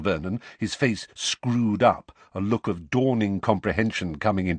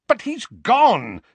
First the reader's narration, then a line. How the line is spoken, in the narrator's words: said Uncle Vernon, impatiently, without the slightest sign that the murder of Harry's parents might be a painful topic